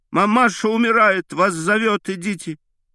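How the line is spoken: Shout. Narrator (Russian): закричала ему

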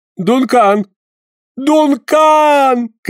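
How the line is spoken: Desperate shout. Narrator (Russian): крикнул Паганель в отчаянии

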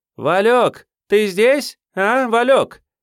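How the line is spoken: Distant yell. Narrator (Russian): заорала из своей берлоги исполнительная

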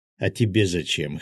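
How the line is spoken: Snorting. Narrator (Russian): хмыкнул Феникс

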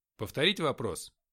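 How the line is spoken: Loud barking. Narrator (Russian): рявкнул я, не боясь быть услышанным в коридоре

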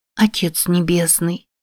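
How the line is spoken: Child whispering. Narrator (Russian): прошептала малышка Розали

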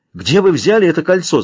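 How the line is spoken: Shout. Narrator (Russian): закричал он

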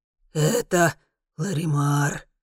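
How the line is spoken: Hoarse. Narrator (Russian): хрипит Сафр

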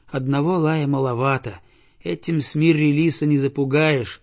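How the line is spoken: Boy's sigh. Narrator (Russian): вздохнул мальчик

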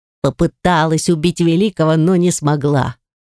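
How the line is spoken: Scoffing snort. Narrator (Russian): хмыкнул Фарик

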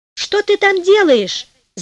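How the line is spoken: Shouted. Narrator (Russian): закричал он

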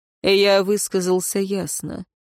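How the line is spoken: Dry tone. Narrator (Russian): сухо произнес Динталь

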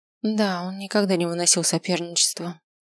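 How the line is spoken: Sigh. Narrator (Russian): вздохнула миссис Матильда

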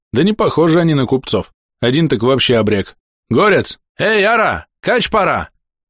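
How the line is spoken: Shout. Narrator (Russian): закричал

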